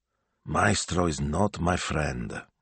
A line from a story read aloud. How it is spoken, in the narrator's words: Signor Speranza muttered aloud